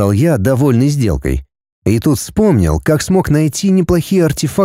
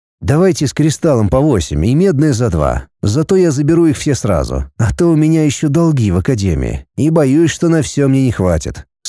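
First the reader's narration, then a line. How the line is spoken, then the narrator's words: Plain. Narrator (Russian): сказал я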